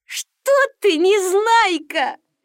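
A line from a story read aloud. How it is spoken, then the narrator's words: Laughing. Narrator (Russian): засмеялся Стекляшкин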